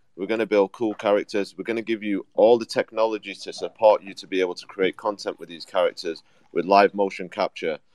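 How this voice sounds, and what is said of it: British accent. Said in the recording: “we've both got British accents”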